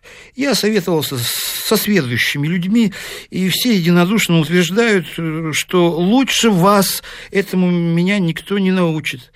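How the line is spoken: Shy, ashamed mumble. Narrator (Russian): стыдливо опустив глаза, бормотал Ларичев

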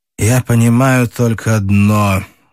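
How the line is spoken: Muffled, hollow voice. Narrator (Russian): глухо сказал Рощин

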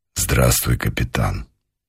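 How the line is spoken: Quiet older man. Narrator (Russian): негромко сказал полковник

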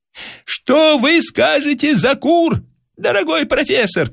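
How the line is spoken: Shout. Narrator (Russian): крикнул Бронский

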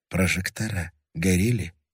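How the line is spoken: Quiet. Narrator (Russian): тихо сказал Левин

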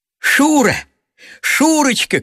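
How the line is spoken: Shouting at full voice. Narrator (Russian): кричал он во весь голос

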